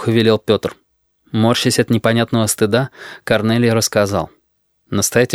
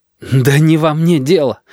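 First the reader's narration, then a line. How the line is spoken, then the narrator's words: Desperate exhale. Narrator (Russian): отчаянно выдохнул он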